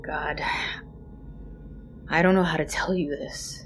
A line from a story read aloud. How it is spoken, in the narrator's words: he sighed